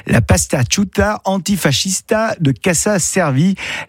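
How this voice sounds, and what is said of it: Bad put-on Italian accent. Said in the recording (French): “désolé pour ce mauvais accent italien”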